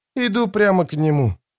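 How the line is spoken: Quiet reply. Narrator (Russian): тихо ответила Ноно

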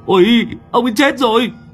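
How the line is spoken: Shrieked. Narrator (Vietnamese): Thằng Đoàn Béo rú lên một tiếng

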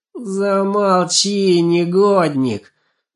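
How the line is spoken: Weak, helpless moan. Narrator (Russian): бессильно простонала Жирола

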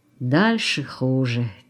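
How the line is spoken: Heavy sigh. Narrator (Russian): тяжело вздохнул Линевич

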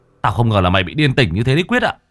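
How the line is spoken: Harsh shout. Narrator (Vietnamese): Thằng Hải quát

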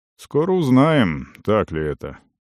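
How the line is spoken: Gloomy. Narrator (Russian): мрачно сказал Венд

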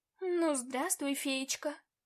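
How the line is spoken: Purring. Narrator (Russian): Промурлыкал

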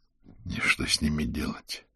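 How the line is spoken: Mutter. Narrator (Russian): пробормотал Аверин

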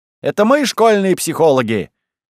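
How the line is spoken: Cheerful children exclaiming. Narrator (Russian): весело воскликнули дети

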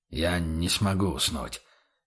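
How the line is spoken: Quiet objection, knight. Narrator (Russian): тихо возразил рыцарь

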